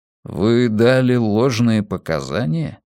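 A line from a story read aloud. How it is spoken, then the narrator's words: Gloomy question. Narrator (Russian): мрачно спросил волк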